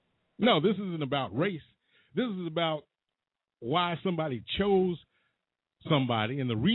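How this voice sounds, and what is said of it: Usual voice. Nothing is said of it.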